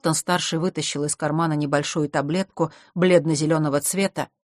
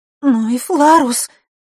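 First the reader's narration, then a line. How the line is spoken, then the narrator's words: Sobbing again. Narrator (Russian): вновь всхлипнула Василиса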